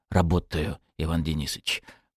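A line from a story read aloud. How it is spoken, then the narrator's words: Whispered. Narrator (Russian): прошептал Павел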